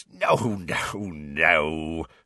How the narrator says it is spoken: said Hagrid, chuckling

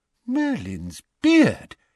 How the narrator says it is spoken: exclaimed Mr

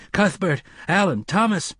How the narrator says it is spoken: His screams sounded puny and thin in the heat

